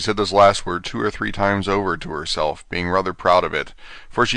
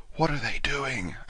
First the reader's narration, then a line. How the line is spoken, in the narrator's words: Alice whispered to the Gryphon